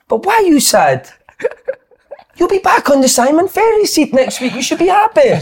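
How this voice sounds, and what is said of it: Put-on Italian accent. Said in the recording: “That Italian accent”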